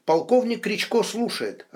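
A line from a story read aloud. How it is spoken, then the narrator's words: Cheerful reply. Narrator (Russian): радостно ответил Стас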